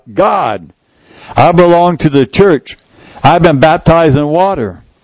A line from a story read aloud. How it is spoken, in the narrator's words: I cried out